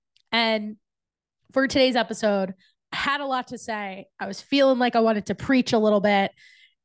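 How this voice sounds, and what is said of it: Sick-sounding, congested voice. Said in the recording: “I might not sound like my most beautiful podcast voice... I'm dealing with a little bit of a cold”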